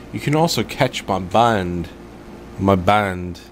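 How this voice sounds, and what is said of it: Bad put-on English accent. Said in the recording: “You got English all of a sudden. ... my bad English accent. It's ... ba- it's, it's bad. ... I don't either for an English accent.”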